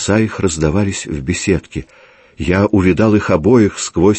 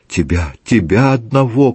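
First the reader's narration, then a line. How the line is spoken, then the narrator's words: Repeating. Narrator (Russian): повторила она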